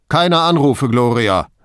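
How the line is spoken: Calling over shoulder, man. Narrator (German): rief er über die Schulter hinweg

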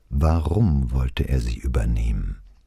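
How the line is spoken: Calm after deep breath. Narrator (German): Brunetti holte tief Luft und sprach ganz ruhig

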